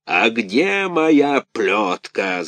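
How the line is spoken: Growling. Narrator (Russian): зарычал Карабас-Барабас

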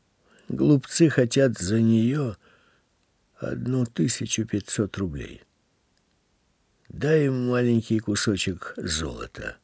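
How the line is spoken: Quiet reply. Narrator (Russian): тихо ответил Дамир

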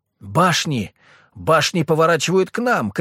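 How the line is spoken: Soldier shouting. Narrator (Russian): крикнул боец

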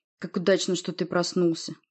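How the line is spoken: Grumbling. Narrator (Russian): проворчал он

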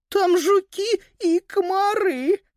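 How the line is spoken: Whining female voice. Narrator (Russian): заскулила она

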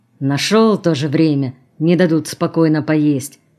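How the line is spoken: Grumbling. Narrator (Russian): проворчал тот

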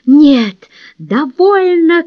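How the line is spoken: Shouting at full strength. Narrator (Russian): крикнул изо всех сил

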